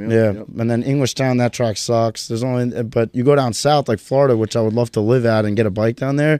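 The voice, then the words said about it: New York accent. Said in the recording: “the accent, I'm like, hey, this guy's a New York guy.”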